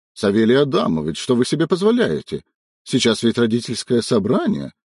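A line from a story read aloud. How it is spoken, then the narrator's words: Indignant shrieking. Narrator (Russian): возмущенно верещал Григорьев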